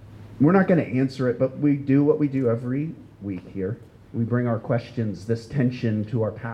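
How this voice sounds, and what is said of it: Usual voice. Nothing is said of it.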